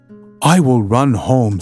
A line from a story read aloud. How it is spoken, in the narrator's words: said she